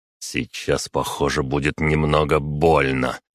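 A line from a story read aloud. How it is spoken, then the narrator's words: Strained through teeth. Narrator (Russian): процедил я через силу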